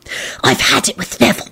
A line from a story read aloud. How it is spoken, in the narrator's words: she hissed furiously